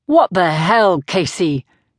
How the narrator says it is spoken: snapped

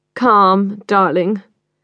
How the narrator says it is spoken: Karen drawls

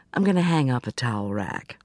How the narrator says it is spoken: said

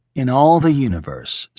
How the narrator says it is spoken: Smith said

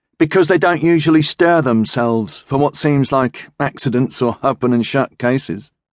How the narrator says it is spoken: said Dichler

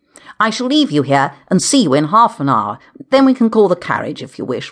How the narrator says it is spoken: Richard said cheerfully

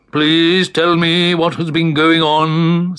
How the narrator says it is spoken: said Great Uncle Bulgaria sternly

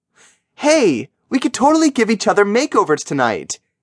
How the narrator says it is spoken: Jillian squealed, in mock excitement

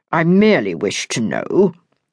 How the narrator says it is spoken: he stated coldly

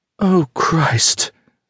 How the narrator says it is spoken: she kept moaning

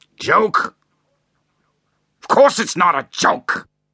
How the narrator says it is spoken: shouted her husband

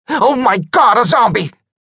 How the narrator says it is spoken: screaming

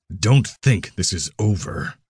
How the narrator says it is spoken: Mammon said, making sure Finn heard the growl in his voice

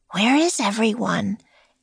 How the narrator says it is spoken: Annie whispered to Jack

